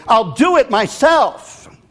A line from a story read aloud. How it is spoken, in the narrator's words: again she shouted, now even more angry